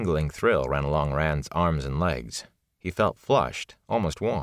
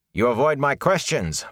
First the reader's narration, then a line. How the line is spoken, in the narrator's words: Bornhold snapped